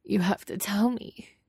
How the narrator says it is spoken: he cries

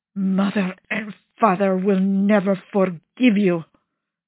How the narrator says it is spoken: Gian Vittorio snarls

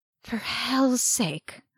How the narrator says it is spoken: Arcadius muttered

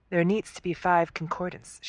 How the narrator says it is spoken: she says calmly

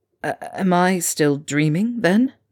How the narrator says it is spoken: He asked weakly

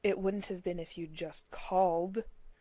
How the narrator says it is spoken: Dean said bitterly

